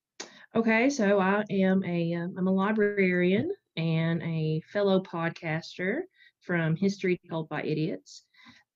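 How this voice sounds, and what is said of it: Eastern Kentucky accent. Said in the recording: “I live in a little tiny town in eastern Kentucky. You can probably hear it in my accent.”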